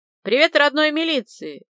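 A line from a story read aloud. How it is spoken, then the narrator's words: Barking into phone. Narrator (Russian): рявкнул я в трубку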